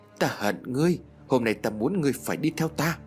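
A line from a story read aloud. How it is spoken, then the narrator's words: Hissing through teeth. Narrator (Vietnamese): Tiểu Phượng nói rít qua kẽ răng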